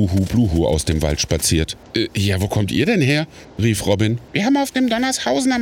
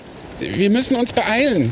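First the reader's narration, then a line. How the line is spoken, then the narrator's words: Called out. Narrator (German): rief Robin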